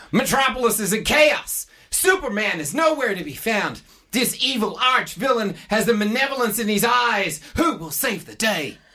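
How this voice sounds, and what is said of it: Put-on American accent. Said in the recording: “I'll do an American accent”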